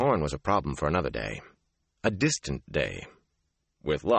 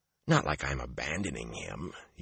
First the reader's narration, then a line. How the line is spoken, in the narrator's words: he muttered